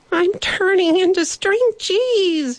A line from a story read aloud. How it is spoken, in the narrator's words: he cried